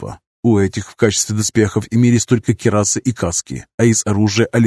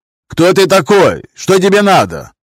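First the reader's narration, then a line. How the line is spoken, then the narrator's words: Shout after hesitation. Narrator (Russian): После короткого замешательства крикнул первый из всадников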